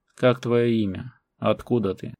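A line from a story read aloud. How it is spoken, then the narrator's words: Stern but not angry. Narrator (Russian): Голос полководца звучал грозно, однако злобы в нем не было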